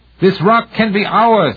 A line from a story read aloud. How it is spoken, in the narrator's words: Yazykov shouted